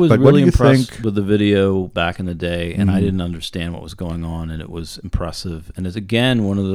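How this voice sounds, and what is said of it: Usual voice. Nothing is said of it.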